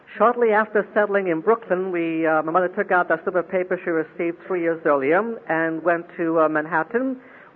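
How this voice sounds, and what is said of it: Mixed accent with Brooklyn traces. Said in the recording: “Brooklyn will explain the rest of the accent that you've been listening to”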